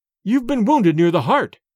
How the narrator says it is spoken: cried Dorda, his face pale

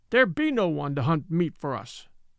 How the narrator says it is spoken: she cried, turning fiercely

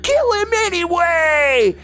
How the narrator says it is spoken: someone screamed

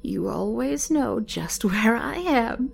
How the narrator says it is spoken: chuckled

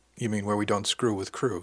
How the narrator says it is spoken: asked

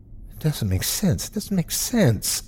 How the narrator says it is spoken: one was mumbling

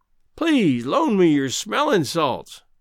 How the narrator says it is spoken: pleaded Greenbrier

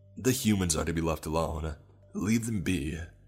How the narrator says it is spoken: I growled

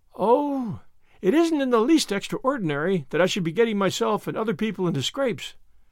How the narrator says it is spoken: said Anne mournfully

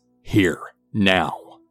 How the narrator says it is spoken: My mother growls

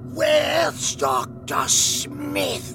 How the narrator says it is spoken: he croaked out

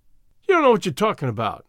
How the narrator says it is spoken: cried the kid angrily

